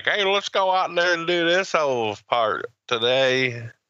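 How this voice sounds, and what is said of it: Put-on redneck Southern accent. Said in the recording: “fucking rednecks, man ... That was a great, great accent ... It's a horrible accent.”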